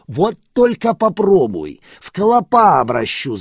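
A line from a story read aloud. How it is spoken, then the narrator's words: Yell. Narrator (Russian): заорал я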